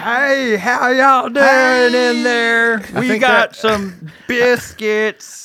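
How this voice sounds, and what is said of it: Exaggerated put-on Southern accent. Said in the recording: “is that supposed to be a Southern accent? Is that what they thought a Southern accent was?”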